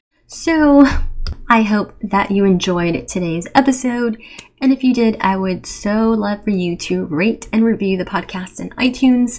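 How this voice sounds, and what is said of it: Slightly raspy voice. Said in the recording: “My voice is getting a little raspy from all of the talking that I've been doing.”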